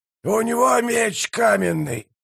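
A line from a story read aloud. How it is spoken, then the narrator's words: Hoarse wheeze. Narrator (Russian): прохрипел Прищур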